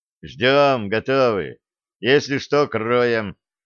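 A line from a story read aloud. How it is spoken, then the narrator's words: Calm. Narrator (Russian): спокойно ответил капитан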